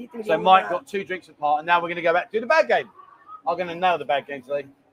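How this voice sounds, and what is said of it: London English accent, fast speech. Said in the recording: “What kind of British accent does ... speak with? Is it Cockney? No, I'm not Cockney, mate. I'm a Londoner. ... we talk quite quickly”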